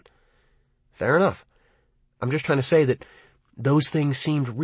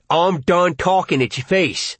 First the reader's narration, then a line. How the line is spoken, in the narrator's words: Dad's bellowed